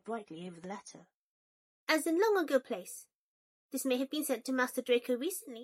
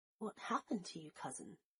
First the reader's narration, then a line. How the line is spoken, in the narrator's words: Draco whispered